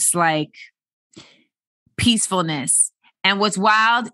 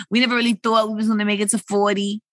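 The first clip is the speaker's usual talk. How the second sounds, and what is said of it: New York accent. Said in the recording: “talking like a New Yorker.”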